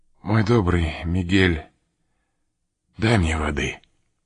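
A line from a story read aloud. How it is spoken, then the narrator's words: Weak voice. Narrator (Russian): граф сказал слабым голосом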